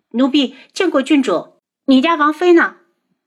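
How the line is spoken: Loud, alarmed. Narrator (Chinese): 红檀脸色大变，大声道

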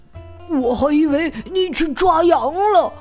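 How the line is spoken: Low growl. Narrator (Chinese): 这个家伙低吼着

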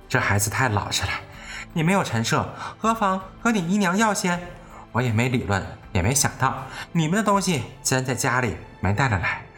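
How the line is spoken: Sighing. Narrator (Chinese): 贾母叹道

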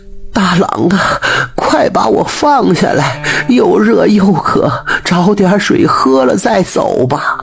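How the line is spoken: Panting, out of breath. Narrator (Chinese): 母亲喘着粗气，上气不接下气地说

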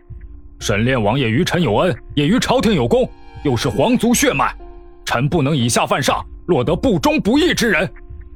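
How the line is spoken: Deep grave voice. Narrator (Chinese): 继续沉声道

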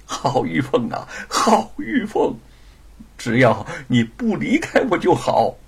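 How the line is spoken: Laughing. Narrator (Chinese): 他 笑道

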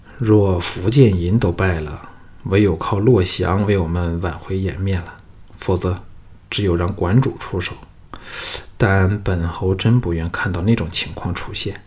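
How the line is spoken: Sighing, lamenting. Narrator (Chinese): 赵牧唉声叹气地对后面的郭开和岳成说

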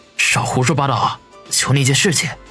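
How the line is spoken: Low, embarrassed voice. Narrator (Chinese): 王宇一阵的暴汗，压低声音说道

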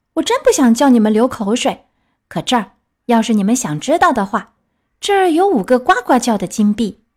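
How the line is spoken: Angry shout. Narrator (Chinese): 皮诺乔生气的叫道

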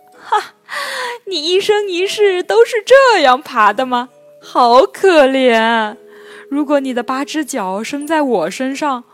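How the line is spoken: Mocking. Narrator (Chinese): 狐狸……便嘲笑道

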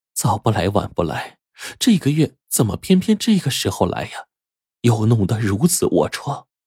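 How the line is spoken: Muttering to oneself. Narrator (Chinese): 暗自嘀咕着

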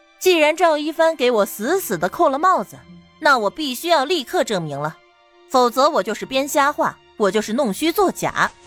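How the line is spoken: Light chuckle. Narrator (Chinese): 唐宁轻笑一声

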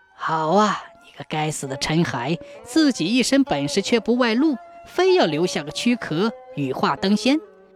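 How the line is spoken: Admiring exclamation. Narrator (Chinese): 算命先生拍手赞叹说

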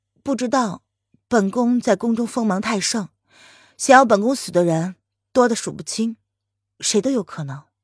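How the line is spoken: Calm, indifferent. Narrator (Chinese): 林渊淡淡的回应道

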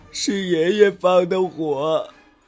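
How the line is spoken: Child crying. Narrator (Chinese): 小孙子哭着说

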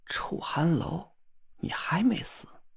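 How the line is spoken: Dazed ashen mumbling. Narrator (Chinese): 他面如死灰，呆呆的，嘴里喃喃自语着一句话

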